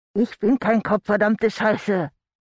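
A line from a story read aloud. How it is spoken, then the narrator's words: Muffled growl behind tape. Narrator (German): knurrte Andy hinter dem Klebeband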